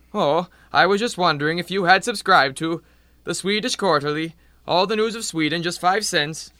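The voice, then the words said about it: Phony Swedish accent. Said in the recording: “drop the phony baloney accent. It's an insult to Swedes everywhere.”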